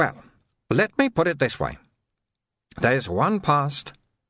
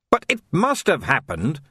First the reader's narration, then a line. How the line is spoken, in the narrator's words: snapped Vimes